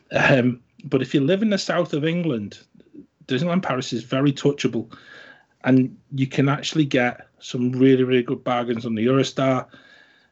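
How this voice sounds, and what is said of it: Northern English accent. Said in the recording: “we live in the north of the country, in case any of the listeners haven't sort of guessed from my accent”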